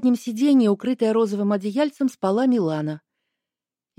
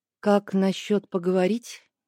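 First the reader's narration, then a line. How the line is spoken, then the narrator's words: Quiet question. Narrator (Russian): негромко спросила я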